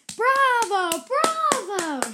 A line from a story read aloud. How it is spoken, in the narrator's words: shouted the judge